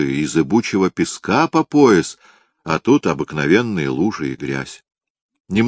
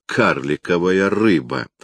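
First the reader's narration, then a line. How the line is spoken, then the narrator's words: Scoffing. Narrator (Russian): хмыкнул Турко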